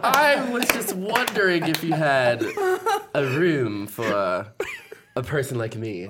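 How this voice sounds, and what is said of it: Put-on British accent. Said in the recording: “all of a sudden, a British accent.”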